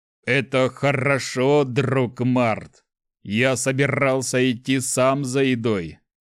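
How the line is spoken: Troll's growl. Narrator (Russian): прорычал тролль

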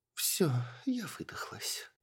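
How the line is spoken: Weak drawling elf. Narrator (Russian): слабым голосом протянула эльфийка

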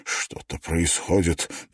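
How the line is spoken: Muttering. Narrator (Russian): пробормотал Клифф

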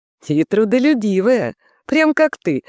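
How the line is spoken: Laughing female voice. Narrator (Russian): засмеялась Николетта

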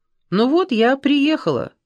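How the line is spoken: Cheerful. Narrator (Russian): сказала весело

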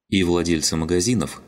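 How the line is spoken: Cold. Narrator (Russian): холодно кивнула девушка

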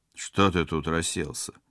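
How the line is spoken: Rude question. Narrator (Russian): грубо спросил спецагент

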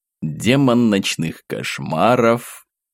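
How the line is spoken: Purred into ear. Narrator (Russian): Мурлыкнул я ему в ухо

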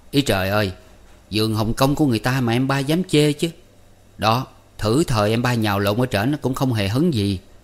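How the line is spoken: Laughing loudly. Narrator (Vietnamese): Anh khách cười lớn, rồi nói

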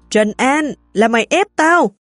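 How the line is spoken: Frenzied screaming. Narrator (Vietnamese): điên cuồng hét lên

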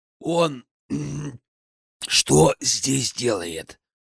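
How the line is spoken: Hoarse rasp. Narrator (Russian): Прохрипел я

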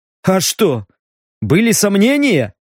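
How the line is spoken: Wry snort. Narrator (Russian): хмыкнул Стриж

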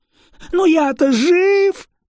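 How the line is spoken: Howling man. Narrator (Russian): взвыл тип

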